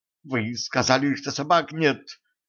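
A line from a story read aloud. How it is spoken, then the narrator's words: Quiet indignation. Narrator (Russian): тихо возмутилась Женька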